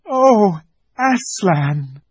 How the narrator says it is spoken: cried both the children, almost as much frightened as they were glad

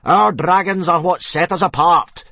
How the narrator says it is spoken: bellowed Gobba

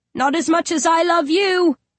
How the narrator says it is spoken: he shouts back

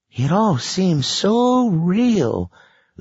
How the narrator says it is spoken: Lacey said wistfully

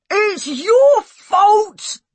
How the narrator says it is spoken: I yelled

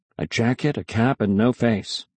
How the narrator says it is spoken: I muttered

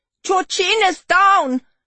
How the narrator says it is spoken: There was a shout

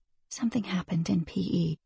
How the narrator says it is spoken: she added softly

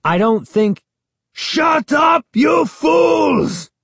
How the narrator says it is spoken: Ahmed screamed

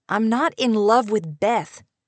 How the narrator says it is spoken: said angrily

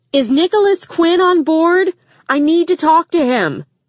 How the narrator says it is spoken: Rachel had lost her mind as she yelled

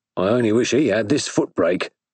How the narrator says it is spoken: said her swain bitterly

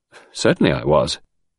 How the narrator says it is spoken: returned the lad haughtily

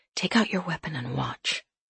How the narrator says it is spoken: I said quietly

